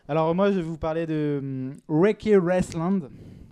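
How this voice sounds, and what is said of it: English accent on a title. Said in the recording (French): “Super accent anglais ... accent anglais”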